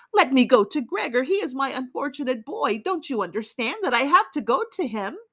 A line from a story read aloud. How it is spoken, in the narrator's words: she cried out